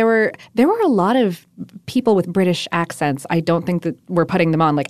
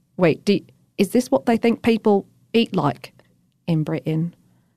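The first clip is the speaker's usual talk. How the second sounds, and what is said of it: Poor put-on British accent. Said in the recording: “My accent is terrible.”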